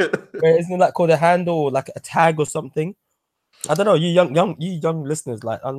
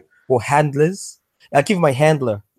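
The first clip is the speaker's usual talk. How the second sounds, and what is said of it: Put-on American accent. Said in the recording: “I don't know why I said it in an American accent”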